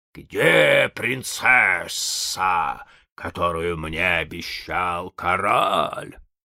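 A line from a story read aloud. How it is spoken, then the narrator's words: Water spirit growling. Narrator (Russian): зарычал водяной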